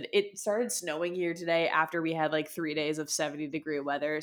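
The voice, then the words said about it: Congested, stuffy-nosed voice. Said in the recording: “I sound so congested. ... I'm just struggling to breathe.”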